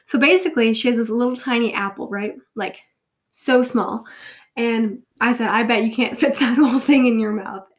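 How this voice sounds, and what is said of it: Congested, stuffy-nosed voice. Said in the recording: “I sound a little congested... It's just a cold.”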